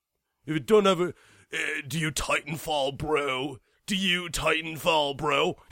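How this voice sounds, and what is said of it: Cartoon macho guy voice impression. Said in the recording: “You like my Johnny Bravo impression? That was amazing, wasn't it?”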